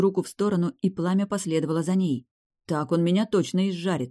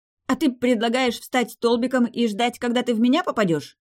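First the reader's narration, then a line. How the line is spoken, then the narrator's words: Breathless shout. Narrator (Russian): Задыхаясь, крикнула ему в ответ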